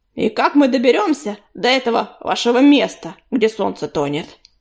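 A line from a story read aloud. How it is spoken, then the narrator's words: Rude interruption. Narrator (Russian): грубо перебил Чернозвезд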